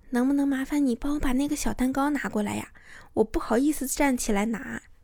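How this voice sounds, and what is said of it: Soft whispery voice. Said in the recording (Chinese): “做出说悄悄话的样子，小声一点跟他讲”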